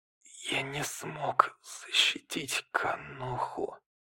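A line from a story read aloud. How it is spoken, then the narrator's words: Quiet whisper. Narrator (Russian): Май Тудай тихо прошептал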